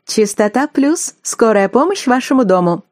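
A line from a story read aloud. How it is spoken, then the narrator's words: Cheerful brisk report. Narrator (Russian): Как всегда весело отрапортовала диспетчер Олечка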